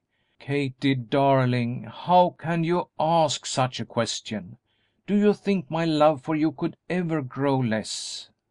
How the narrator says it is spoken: Startled out of his customary self-control, Darrell exclaiming

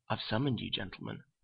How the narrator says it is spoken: he said quietly

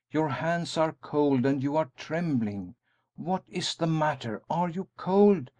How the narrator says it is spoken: he exclaimed

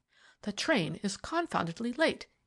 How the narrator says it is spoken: he exclaimed irritably

